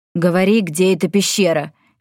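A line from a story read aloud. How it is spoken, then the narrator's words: Angry. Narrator (Russian): сердито сказал Йен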